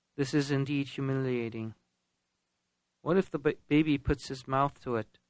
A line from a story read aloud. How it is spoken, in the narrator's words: Melchior let out a deep sigh of pain and said